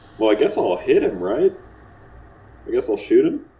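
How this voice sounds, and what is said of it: Put-on accent. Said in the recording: “Oh, lost my accent. ... Okay, I got it back.”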